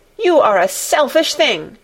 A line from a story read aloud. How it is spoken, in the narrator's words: cried Colin